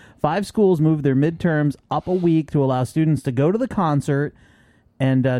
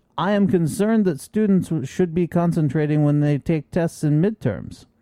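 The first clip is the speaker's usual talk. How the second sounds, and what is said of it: Put-on foreign accent. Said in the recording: “Is that your accent?”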